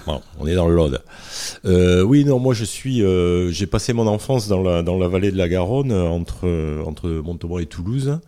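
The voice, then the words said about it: Southern French regional accent. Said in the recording (French): “t'es de Montauban ... On va l'entendre d'ailleurs avec ton accent.”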